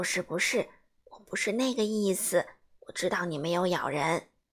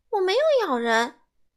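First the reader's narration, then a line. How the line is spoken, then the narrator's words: Loud. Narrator (Chinese): 西蒙大声说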